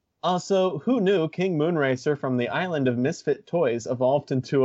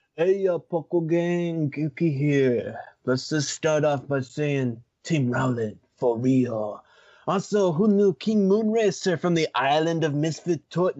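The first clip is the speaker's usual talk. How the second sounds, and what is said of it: Put-on gangster, stoner-like voice. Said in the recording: “gangster voice ... No, this is more like stoner drug dealer voice”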